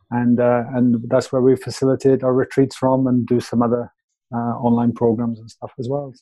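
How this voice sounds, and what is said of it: Welsh accent. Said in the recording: “that accent, we love it ... leave Wales”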